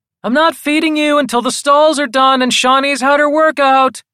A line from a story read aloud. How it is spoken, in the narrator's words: she yells